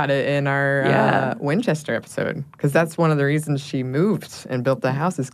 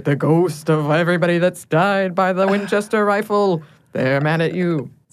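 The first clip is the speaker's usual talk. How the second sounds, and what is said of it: Ghoulish, dramatic put-on accent. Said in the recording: “I love the accent that you gave to that... It was very ghoulish... The drama.”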